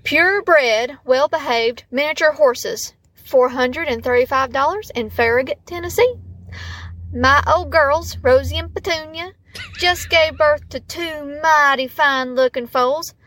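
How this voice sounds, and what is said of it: Exaggerated Southern US accent. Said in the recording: “a truly Southern ad. And I already have a pretty good Southern accent to boot, but ... I'm going to try and add a little extra flair to this one.”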